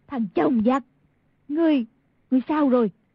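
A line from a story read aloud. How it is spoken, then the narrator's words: Crying out. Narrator (Vietnamese): Y thị kêu lên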